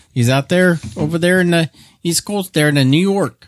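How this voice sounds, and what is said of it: Attempted New York accent, sounds Chicago. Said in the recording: “That's not a New York accent. ... It's like more of a Chicago accent.”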